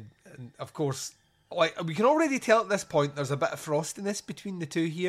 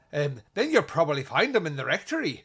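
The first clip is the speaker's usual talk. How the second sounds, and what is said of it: Bad put-on Irish accent. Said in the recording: “There's a lot of bad Irish accents in my reviews, and I apologise in advance”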